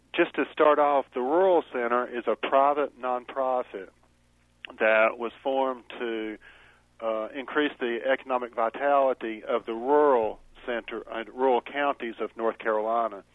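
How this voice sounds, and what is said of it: North Carolina accent, voice with a cold. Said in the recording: “I do have a North Carolina accent, and I do have a cold”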